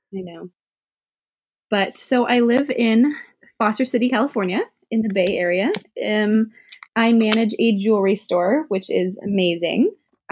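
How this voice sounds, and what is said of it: Sickly-sounding voice. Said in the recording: “and I are both getting over being sick, so if you're wondering why we sound sickly, that's why”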